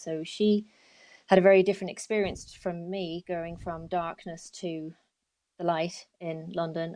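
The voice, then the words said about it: London English accent. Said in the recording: “my accent. I'm a Londoner originally.”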